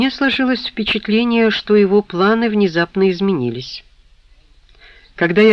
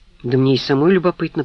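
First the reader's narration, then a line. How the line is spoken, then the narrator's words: Grumbling. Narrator (Russian): проворчала Анжелика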